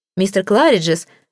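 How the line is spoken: Exclaimed with genuine joy. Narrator (Russian): воскликнул я с непритворной радостью

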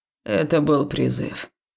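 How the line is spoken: Muffled reply. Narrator (Russian): глухо отозвался Долсоу

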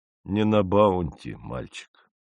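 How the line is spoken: Sad. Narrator (Russian): печально произнес

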